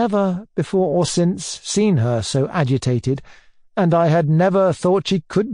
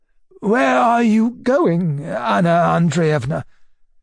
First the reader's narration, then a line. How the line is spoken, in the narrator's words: Nikolai Sergeyitch in a breaking voice asked